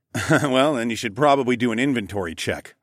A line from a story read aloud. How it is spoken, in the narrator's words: chuckled